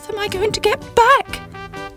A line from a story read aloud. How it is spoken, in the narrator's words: cried Sybil